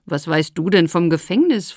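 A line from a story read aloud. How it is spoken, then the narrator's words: Slightly mocking question. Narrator (German): fragte ein wenig spöttisch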